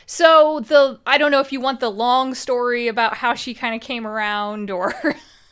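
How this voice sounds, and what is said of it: American Midwestern accent. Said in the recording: “You could probably tell from my accent. I'm American. I'm very Midwestern.”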